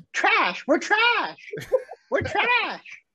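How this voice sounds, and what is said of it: Imitates another person's voice. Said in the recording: “my Courtney impression real quick? Impersonation?”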